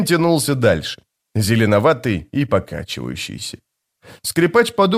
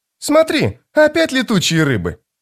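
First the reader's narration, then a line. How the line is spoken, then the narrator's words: Exclaimed. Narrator (Russian): воскликнула Апсалар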